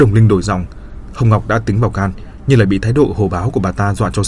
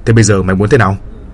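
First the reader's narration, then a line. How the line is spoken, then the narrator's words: Man's angry bellow. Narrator (Vietnamese): Người đàn ông gần cổ lên nạt nộ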